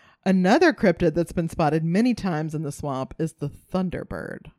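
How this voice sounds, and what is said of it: Usual voice. Nothing is said of it.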